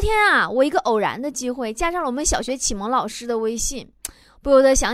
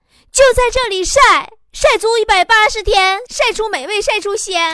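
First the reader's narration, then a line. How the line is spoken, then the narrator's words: Shouting. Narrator (Chinese): 我总是忍不住对他们喊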